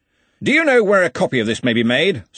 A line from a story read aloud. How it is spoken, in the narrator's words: said Ridcully loudly